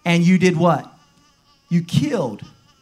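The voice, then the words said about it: Strong southern accent. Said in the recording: “I said that in my strong southern accent.”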